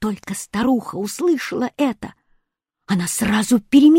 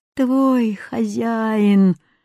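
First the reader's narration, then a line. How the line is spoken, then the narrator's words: Groaning camel. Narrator (Russian): застонал верблюд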